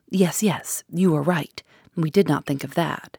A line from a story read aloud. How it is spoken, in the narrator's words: The commissary exclaimed excitedly